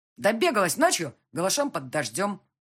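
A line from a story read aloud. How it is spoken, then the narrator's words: Angry. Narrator (Russian): сердито сказал камердинер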